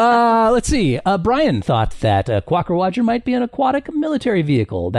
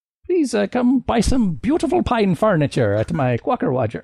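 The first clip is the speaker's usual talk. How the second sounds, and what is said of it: Put-on accent. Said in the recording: “I'm going to stop doing accents now.”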